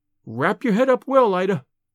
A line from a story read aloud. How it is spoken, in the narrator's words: she said anxiously